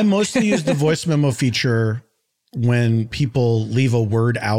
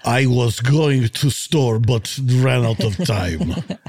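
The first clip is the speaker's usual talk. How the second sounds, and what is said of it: Thick put-on Russian accent. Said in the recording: “I read it back in a thick accent ... We can still do the Russian accent”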